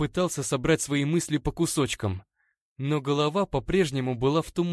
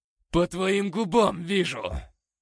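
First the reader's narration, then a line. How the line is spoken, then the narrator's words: Growled. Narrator (Russian): прорычал он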